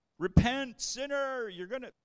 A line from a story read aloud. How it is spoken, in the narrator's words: started yelling